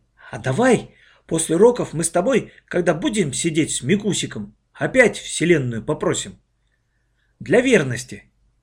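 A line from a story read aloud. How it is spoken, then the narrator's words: Whisper. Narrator (Russian): Оля прошептала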